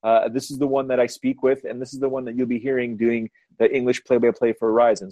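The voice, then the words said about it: Canadian English accent. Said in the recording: “Canadian isn't English ... this is my accent ... we all have accents”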